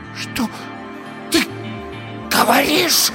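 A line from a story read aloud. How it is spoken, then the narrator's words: Hoarse, frightening whisper. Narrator (Russian): Хриплый шепот Ирины был страшнее любого крика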